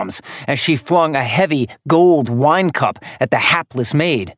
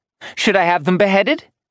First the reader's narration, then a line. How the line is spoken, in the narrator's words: Urien laughed